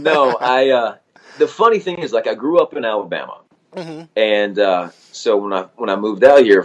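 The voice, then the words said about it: Southern American accent. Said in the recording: “I can take from your accent that you're not originally from sort of California areas.”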